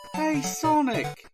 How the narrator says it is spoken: says

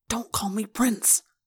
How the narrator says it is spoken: Prince Jake hissed

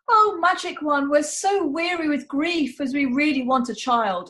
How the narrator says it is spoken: exclaimed the woman

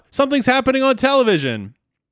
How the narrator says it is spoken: Bender yells out

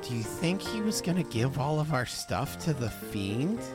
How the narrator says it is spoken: Reggie's gonna whisper in Posey's ear

